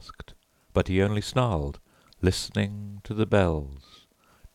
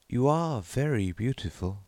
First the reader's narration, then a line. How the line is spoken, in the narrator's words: sighed the clown